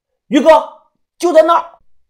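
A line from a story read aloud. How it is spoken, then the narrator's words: Loud shout. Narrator (Chinese): 大声的喊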